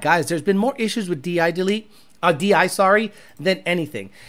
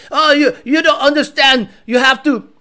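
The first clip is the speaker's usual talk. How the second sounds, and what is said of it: Mock German accent, harsh-sounding. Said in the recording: “I don't know what accent he has ... He's German, right? So he has to like sound violent.”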